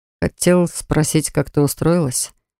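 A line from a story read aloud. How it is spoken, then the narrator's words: Hesitant. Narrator (Russian): Неуверенно начал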